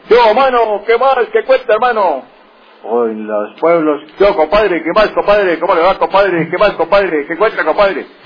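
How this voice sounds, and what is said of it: Abrupt, clipped Santander regional accent. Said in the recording (Spanish): “el acento que tenemos los santandereanos es golpeado ... Con ese tonito”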